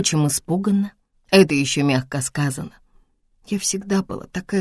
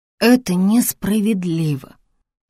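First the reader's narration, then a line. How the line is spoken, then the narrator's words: Frightened mumble. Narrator (Russian): испуганно промямлила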